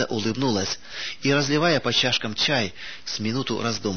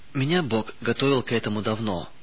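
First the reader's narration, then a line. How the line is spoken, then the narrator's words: Calm. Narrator (Russian): спокойно произнесла она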